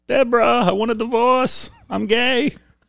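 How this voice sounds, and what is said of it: Imitates another person's voice. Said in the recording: “I do a really good gay Romano ... It's my gay Romano.”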